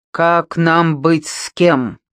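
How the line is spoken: Irritated, muffled under blanket. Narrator (Russian): раздраженно осведомился из-под одеяла

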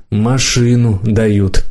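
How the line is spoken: Sighed. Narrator (Russian): вздохнула мама

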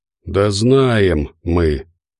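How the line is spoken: Displeased creature grumbling. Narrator (Russian): недовольно пробурчало существо

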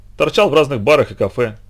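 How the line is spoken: Angry reply. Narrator (Russian): сердито ответил я

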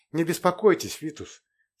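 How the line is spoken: Hurried. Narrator (Russian): торопливо произнес Зафар Ринган

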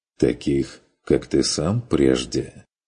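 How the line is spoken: Clarifying. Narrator (Russian): уточнил фон Вегерхоф

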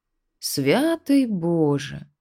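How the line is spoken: Tired sigh. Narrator (Russian): устало вздохнул маг

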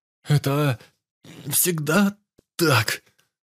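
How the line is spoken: Strained, forced words. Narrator (Russian): С трудом выдавил Макс

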